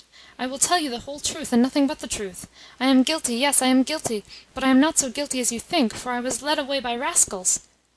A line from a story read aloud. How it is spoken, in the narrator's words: gasped